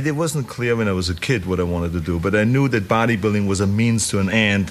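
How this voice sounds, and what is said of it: Strong unusual foreign accent. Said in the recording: “a crazy accent”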